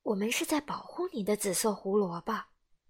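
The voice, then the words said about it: Quiet, soft-spoken character line. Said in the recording (Chinese): “小声地说”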